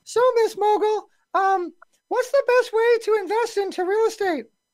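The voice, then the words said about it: Poor imitation of another person's voice. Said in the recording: “I'm going to do this in Dante's voice... that was a bad impression,”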